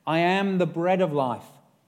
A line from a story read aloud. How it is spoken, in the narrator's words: says Jesus